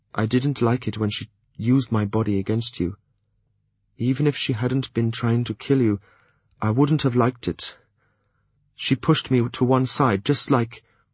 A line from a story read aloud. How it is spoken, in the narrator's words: he added quietly